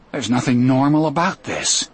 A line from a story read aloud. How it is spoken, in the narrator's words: I said bitterly